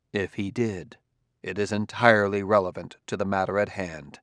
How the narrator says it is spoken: Bailey said softly

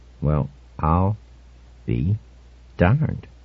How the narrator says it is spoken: Norman said very slowly

